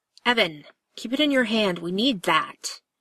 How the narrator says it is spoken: Cass snaps

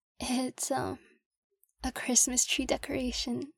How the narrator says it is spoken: patient admits, her voice cracking

